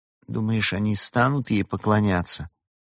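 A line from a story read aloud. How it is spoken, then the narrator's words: Uncertain question. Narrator (Russian): неуверенно спросил Харон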